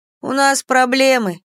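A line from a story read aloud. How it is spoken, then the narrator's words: Muffled grumbling. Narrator (Russian): пробурчала она из-под подушки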